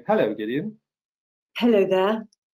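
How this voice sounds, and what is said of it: Put-on British accent. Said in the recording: “I love accents. Uh, I absolutely will be uh, snapping into my into my British accent”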